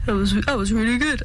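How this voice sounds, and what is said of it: Imitates another person's voice. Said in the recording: “great impression ... of Tom Walker ... That's an awful Tom Walker impression ... That's not what he sounds like at all.”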